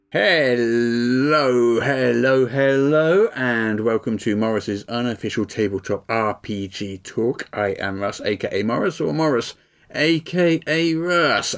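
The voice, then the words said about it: Congested, weird-sounding voice. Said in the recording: “I'm suffering from a really bad cold, so I apologise if my voice sounds any more weird than usual”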